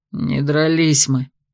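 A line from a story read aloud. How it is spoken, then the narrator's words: Gloomy admission. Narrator (Russian): мрачно признался Дарс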